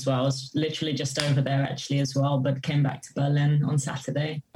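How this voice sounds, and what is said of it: English accent with slight foreign tinge. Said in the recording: “the accent is definitely English... There's like there's a tinge of something else in there”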